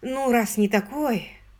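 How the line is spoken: Sigh. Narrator (Russian): вздохнула мисс Керли

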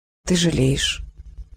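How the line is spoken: Sad smiling old woman. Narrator (Russian): грустно улыбнулась бабушка Осень

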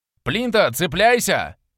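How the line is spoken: Shout while transforming. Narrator (Russian): прокричал я, превращаясь в дракона

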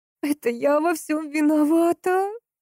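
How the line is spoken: Sobbing outburst. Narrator (Russian): вырвалась у нее сквозь рыдание

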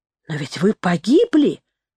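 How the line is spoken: Exclamation. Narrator (Russian): воскликнула она

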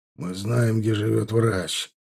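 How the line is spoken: Cold. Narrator (Russian): холодно сказал Михалыч

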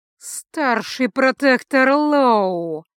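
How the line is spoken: Through gritted teeth. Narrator (Russian): процедил Льот

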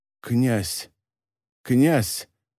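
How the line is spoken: Muttered. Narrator (Russian): пробормотал тот

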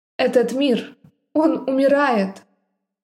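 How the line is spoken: Hesitant sigh. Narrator (Russian): Я вздохнула, не совсем уверенная в том, что это вообще стоит говорить

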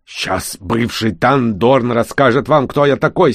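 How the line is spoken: Angry growl through teeth. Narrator (Russian): стиснув зубы от злости, прорычал гном

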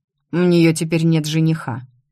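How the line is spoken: Angry reply. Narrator (Russian): зло ответило

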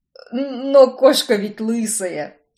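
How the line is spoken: Forced unnatural laugh. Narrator (Russian): неестественно хохотнул Картер

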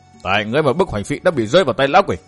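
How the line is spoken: Angry. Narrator (Vietnamese): Thạch Ngạo tức giận

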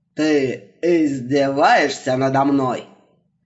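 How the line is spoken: Roar. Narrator (Russian): Взревел он

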